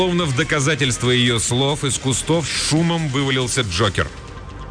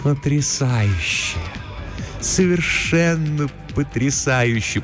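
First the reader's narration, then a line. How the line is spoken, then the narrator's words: Deep purr into ear. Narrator (Russian): промурлыкала она ему в ухо, и глубокий тембр ее голоса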